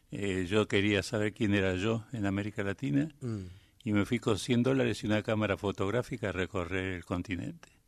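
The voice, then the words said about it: Buenos Aires porteño Spanish accent. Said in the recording (Spanish): “Ahí te quedó el acento porteño.”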